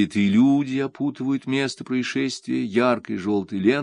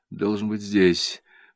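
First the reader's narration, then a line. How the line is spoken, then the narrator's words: Muttering. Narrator (Russian): бормочет Августа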